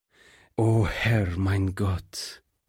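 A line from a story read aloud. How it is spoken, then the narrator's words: Groaned. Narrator (German): stöhnte der Pastor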